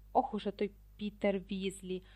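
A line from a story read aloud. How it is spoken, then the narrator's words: Hissed. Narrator (Ukrainian): прошипів Мелфой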